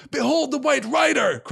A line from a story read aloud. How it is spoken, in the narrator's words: cried Aragorn